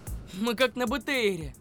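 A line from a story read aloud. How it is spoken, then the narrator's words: Pleased. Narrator (Russian): сказал он довольным тоном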